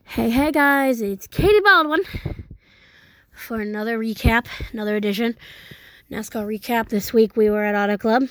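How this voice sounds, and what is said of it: Slightly out of breath. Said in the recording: “I sound a little out of breath.”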